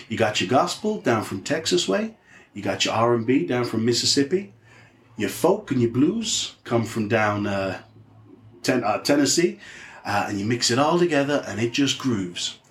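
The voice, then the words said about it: Put-on Southern American accent. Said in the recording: “I'm going to try and do a South American accent.”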